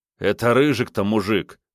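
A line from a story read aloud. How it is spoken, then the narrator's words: Snorting. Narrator (Russian): фыркнул Снейк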